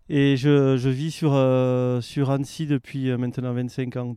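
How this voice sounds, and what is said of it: Lilting southern French accent. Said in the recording (French): “le petit accent euh, chantin”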